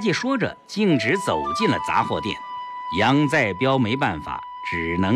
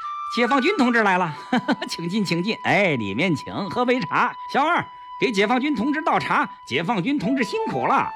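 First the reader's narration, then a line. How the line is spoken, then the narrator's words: Eager smiling welcome. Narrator (Chinese): 杂货店掌柜赶紧露出笑脸相迎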